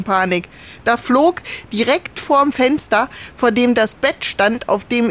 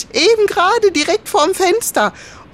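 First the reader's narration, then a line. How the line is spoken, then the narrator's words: Shouting. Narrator (German): schrie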